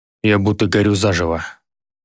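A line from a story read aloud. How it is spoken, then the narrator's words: Hoarse wheeze. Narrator (Russian): прохрипел Гедеон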